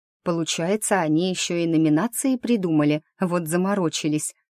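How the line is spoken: Whisper. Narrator (Russian): шепнула Шанти

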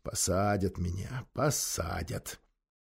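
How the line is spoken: Whispering to himself. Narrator (Russian): Максим Максимович озабоченно шептал себе под нос

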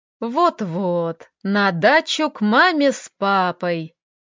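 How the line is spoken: Spiteful giggle. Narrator (Russian): зло хихикнул Леха

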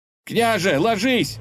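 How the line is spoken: Shouted. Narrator (Russian): закричал он

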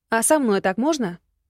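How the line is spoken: Indignant question. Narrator (Russian): возмущенно спросила

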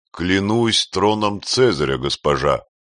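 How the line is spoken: Sincere exclamation. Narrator (Russian): воскликнул он искренне

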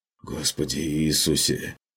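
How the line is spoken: Quiet mutter. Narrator (Russian): пробормотал фон Люфтенхаймер тихо

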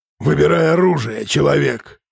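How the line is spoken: Roared. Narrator (Russian): проревел

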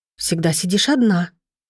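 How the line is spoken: Little sister, quietly. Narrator (Russian): тихо сказала сестренка Маринет

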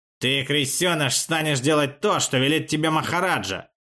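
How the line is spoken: Hiss. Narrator (Russian): прошипел Хасмин

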